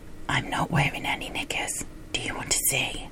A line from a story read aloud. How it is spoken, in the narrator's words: She whispered